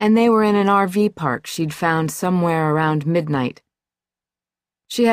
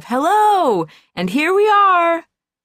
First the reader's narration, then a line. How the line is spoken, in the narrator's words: Cheerful shrieks of